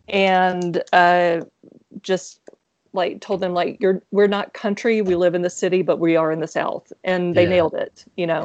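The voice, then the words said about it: Southern American accent. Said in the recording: “I'm from Mississippi, and so people hear my accent”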